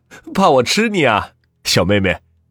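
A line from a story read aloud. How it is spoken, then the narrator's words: Hearty laughter. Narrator (Chinese): 王坤哈哈大笑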